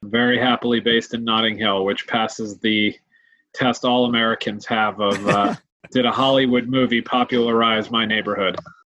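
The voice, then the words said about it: American accent. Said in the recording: “as you can hear from my accent, I came from the US of A”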